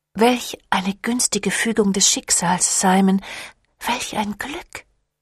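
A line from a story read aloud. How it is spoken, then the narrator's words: Murmur. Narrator (German): murmelte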